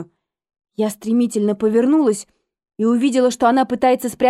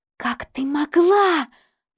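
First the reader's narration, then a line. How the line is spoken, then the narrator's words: Hissed. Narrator (Russian): прошипела Эмили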